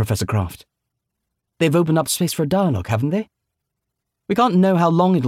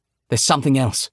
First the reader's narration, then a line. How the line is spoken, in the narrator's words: Robin said sharply